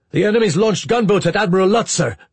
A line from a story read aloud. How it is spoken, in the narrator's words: Kulnozov said sharply